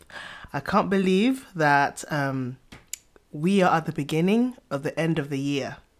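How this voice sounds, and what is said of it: Nasal voice from a cold. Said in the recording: “I sound very nasal. I am nursing a cold”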